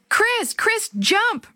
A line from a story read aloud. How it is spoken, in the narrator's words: Maria screamed